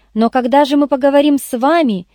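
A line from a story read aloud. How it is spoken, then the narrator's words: Shout after someone. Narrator (Russian): крикнул я ей вдогон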